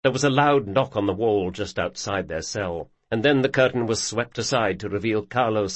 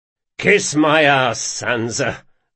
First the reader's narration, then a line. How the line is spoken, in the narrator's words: gasped